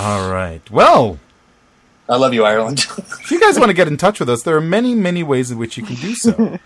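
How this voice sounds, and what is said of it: Usual voice. Nothing is said of it.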